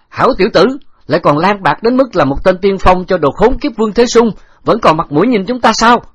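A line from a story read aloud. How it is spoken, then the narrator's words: Loud shout from afar. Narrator (Vietnamese): Trình Giảo Kim từ xa quát lớn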